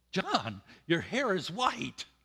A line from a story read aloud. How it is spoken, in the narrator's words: one of my sisters-in-law, whom I hadn't seen for several years, exclaimed